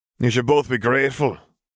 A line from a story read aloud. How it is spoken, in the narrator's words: Gabriel sighed